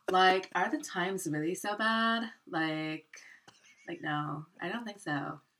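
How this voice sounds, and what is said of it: Put-on California accent. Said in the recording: “Can you do that in a California accent”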